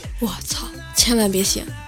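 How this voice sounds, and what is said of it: Quiet, hushed voice. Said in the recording (Chinese): “小声说道”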